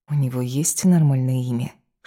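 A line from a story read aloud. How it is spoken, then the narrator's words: Whispered. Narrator (Russian): шепнула Ева своему провожатому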